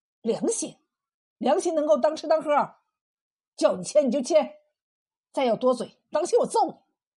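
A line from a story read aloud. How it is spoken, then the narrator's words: Angry roar. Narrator (Chinese): 冯三喜把眼瞪起来，吼道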